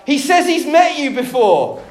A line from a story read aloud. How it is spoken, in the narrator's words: The man yelled back